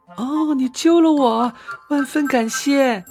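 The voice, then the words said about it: Small, tiny voice. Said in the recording (Chinese): “用细小的声音说”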